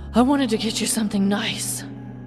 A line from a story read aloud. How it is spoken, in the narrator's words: Lei panted heavily